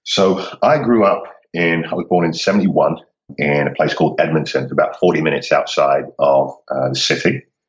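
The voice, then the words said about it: British accent. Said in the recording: “I'm picking up on the British accent.”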